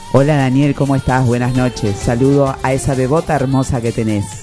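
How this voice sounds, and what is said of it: Radio announcer voice. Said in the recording (Spanish): “que diga una palabra con voz de locutor”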